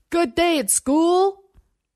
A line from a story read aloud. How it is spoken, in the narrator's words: Over the rising whine of the engine and the vip, vip, vip of chopped air, shouted